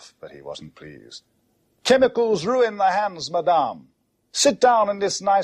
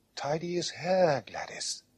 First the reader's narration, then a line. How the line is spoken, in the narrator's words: whispered Mamma